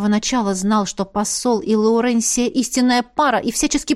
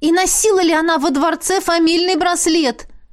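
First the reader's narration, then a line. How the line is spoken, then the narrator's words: Near shout. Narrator (Russian): практически выкрикнула я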